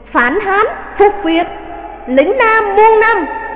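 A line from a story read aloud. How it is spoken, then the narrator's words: Crowd cheering. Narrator (Vietnamese): Cả hội trường reo lên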